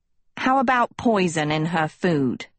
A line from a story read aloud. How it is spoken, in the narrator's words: Hester spat